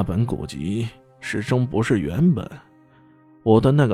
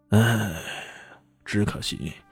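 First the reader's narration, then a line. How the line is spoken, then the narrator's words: Long sigh. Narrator (Chinese): 杜大师这时却长叹一声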